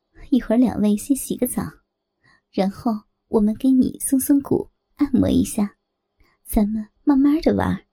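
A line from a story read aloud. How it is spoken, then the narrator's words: Said laughing. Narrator (Chinese): 我笑着说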